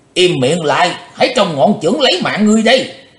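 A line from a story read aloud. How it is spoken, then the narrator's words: Loud shout. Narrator (Vietnamese): Quái khách lớn tiếng quát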